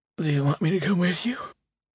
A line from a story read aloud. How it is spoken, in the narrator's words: River asked, his voice breaking into a yawn